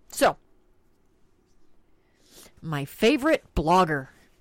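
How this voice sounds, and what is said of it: Heavily sarcastic tone. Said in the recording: “that was sarcasm, by the way. That was lots of sarcasm.”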